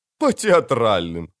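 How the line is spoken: Loud laughter. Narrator (Russian): расхохотался Хувенагель

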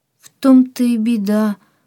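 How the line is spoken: Sad reply. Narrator (Russian): грустно отозвался Антон

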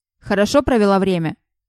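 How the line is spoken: Sharp question. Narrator (Russian): резко спросил Джеймс

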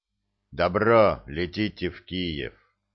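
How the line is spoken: Muffled, hollow. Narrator (Russian): проговорил глухо

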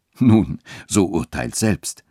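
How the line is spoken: Cheerful clergyman. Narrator (German): sagte der Geistliche mit lachender Miene

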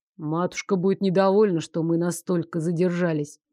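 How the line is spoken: Grumble. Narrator (Russian): проворчал Лоренс

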